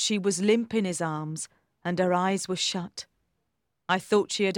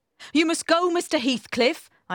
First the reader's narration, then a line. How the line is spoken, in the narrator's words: I cried